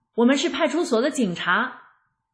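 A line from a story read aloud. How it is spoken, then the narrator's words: Hurried shout. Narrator (Chinese): 那两人赶紧喊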